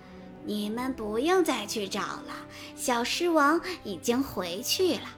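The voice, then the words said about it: Strange mysterious voice from the forest. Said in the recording (Chinese): “一个来自森林深处的奇怪的声音说”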